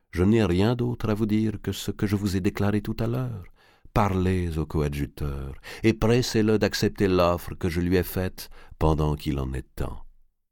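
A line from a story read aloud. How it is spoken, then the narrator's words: Calm. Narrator (French): dit Ptolémée calmement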